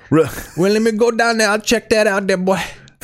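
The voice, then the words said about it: Southern accent impression. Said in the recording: “He's like a Southern accent. ... Will Patton always has to have a Southern accent.”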